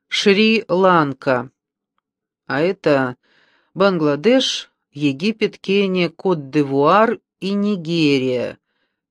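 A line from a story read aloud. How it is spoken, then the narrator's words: Listing. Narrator (Russian): перечислил он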